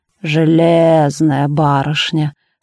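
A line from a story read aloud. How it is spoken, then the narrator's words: Admiring drawl. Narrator (Russian): с явным восхищением протянул Донат Абрамыч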